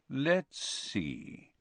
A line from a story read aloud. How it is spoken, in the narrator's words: said in his silkiest voice